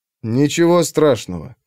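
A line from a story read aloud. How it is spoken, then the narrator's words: Soothing. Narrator (Russian): сказал он успокаивающе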